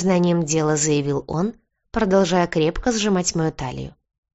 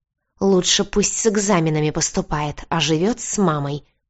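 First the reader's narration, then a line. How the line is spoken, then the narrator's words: Hissed in his face. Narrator (Russian): прошипела я ему в лицо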